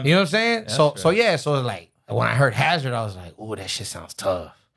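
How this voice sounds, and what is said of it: Puerto Rican East Coast accent. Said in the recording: “you got like a Puerto Rican, East Coast type accent”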